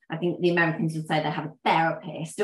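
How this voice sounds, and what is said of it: Bad put-on American accent. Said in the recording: “that's a terrible American accent.”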